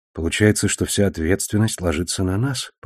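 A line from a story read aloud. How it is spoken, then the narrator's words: Whisper. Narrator (Russian): прошептал я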